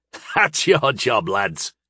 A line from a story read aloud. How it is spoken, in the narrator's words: he sneered